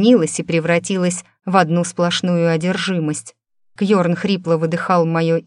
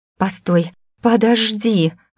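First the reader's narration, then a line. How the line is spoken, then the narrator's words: Breathless. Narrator (Russian): выдохнула я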